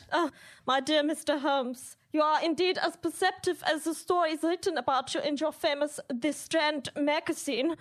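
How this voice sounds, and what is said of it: Put-on foreign accent. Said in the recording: “No doubt it was my accent.”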